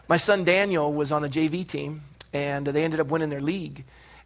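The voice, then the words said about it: Hoarse voice. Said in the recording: “My voice is hoarse, not because I'm sick. It's football season.”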